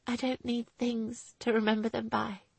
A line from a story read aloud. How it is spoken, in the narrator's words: she replied brokenly